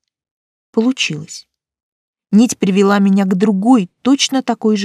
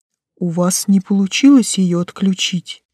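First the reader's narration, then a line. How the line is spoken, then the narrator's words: Distant hoarse alien voice. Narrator (Russian): донесся хриплый голос зиндарийца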